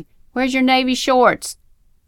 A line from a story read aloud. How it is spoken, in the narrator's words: mom yelling at me